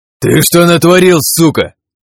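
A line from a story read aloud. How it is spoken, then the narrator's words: Man roaring. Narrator (Russian): Взревел мужик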